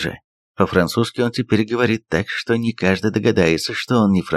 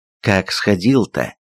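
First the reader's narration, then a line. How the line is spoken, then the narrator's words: Plain. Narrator (Russian): спросил я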